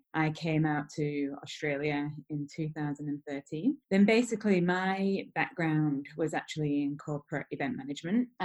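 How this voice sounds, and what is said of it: British accent. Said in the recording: “as you can probably tell from my accent, I am originally from the UK”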